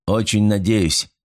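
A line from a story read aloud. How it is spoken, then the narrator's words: Gloomy. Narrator (Russian): мрачно ответил капитан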